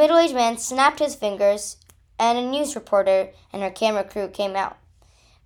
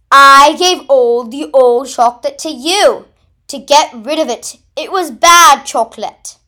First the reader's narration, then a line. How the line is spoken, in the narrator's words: Wilkinson took a deep breath and yelled